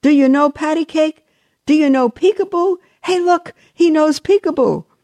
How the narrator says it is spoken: the man began shouting from across the room

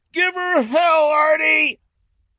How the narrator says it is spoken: Janet smiled and then laughed

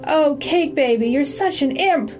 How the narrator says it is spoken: She bled and she cried

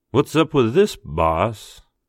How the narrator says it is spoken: Mitch drawled

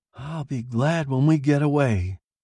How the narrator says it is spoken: she sighed

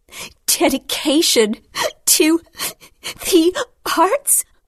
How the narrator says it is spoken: She said between breaths

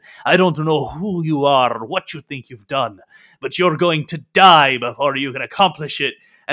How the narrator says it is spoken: He uh, growls at you and says

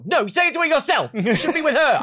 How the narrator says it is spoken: literally yelled

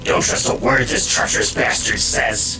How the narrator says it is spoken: the voice hissed

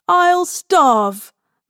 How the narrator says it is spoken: Mary shrieks, half delighted by the idea

